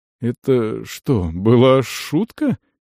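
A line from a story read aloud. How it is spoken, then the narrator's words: Uncertain question. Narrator (Russian): неуверенно спросил Дарш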